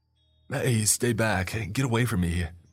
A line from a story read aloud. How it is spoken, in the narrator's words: he demanded, desperately